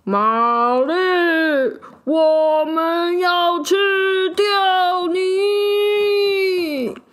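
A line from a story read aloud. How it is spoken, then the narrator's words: Roaring and shouting. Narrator (Chinese): 他朝着玛丽又吼又叫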